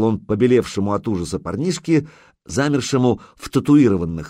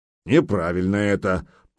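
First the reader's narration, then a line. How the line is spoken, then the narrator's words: Grumbling. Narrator (Russian): проворчал Гудмунд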